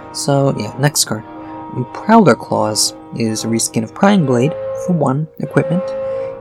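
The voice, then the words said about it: Soft, quiet speaking voice. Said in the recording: “still very hard on the throat ... trying to do this soft voice”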